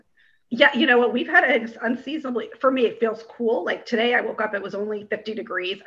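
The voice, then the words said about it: Voice slightly off, allergy-affected. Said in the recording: “excuse my voice, I've taken allergy med. The pollen is atrocious.”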